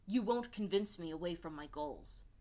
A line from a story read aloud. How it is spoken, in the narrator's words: said Hakoda, his voice wintry